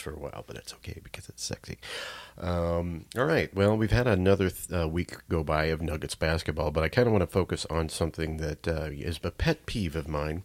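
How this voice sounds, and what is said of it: Deep, altered voice while recovering. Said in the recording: “my voice is slowly getting better. It's not nearly the same timbre as it was. I think I'm going to have this deep voice”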